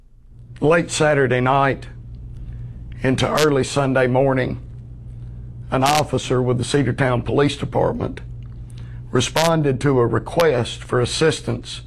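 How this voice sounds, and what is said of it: Country regional accent. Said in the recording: “He's a country boy, too. ... I grew up in this part of the state. He has my accent.”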